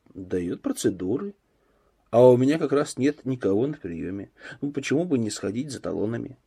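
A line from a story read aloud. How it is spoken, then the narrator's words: Quiet and calm. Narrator (Russian): Данилов говорил тихо, спокойно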